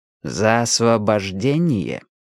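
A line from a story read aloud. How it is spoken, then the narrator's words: Slow, clipped, deliberate. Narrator (Russian): медленно отчеканил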